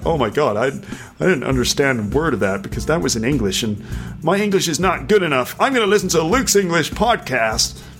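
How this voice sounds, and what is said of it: Put-on American accent. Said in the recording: “For some reason, that was in an American accent.”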